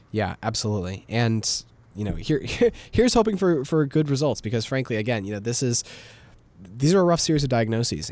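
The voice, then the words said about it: Slightly raspy voice. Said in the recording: “My voice is a little raspy because I am getting over a cold.”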